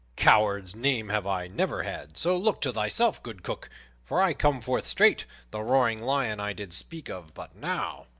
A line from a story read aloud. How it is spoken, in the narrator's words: cried Little John